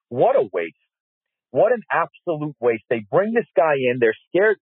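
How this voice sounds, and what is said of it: Angry, bitter tone of voice. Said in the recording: “hear the vitriol in my voice”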